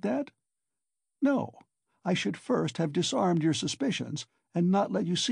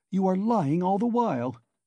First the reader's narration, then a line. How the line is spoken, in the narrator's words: he cried